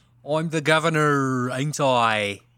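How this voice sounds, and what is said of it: Put-on British accent. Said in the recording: “I'm here doing a British accent. ... It's real believable the way I'm speaking.”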